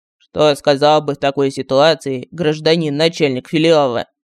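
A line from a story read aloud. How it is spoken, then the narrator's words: Bored voice. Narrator (Russian): скучным голосом спросил Мар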